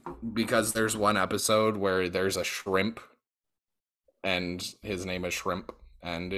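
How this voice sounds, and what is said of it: Usual voice. Nothing is said of it.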